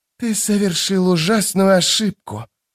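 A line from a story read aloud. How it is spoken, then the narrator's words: Hissing. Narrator (Russian): прошипел казначей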